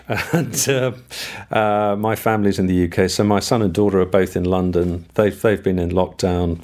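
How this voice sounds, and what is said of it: British accent. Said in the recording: “With your accent ... I am British”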